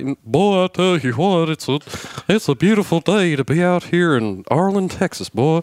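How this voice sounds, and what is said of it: Hank Hill impression, Texan drawl. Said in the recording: “Your Hank Hill ... that impersonation”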